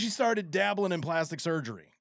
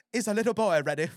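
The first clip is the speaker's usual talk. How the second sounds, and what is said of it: Bad put-on British accent. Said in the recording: “shitty British accent?”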